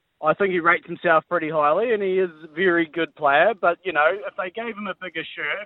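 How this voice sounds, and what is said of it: Broad New Zealand accent. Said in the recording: “the New Zealand accent as broadly as we're hearing from you”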